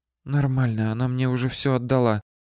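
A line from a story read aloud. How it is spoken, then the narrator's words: Muffled whisper into phone. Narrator (Russian): прошептала Ольга в трубку, прикрыв рот ладошкой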